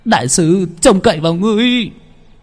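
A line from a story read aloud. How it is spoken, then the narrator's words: Stamping, shouting. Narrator (Vietnamese): Cao Thành dậm chân la lên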